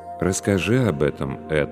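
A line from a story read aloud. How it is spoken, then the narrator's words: Calm priest's reply. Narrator (Russian): спокойно ответствовал священник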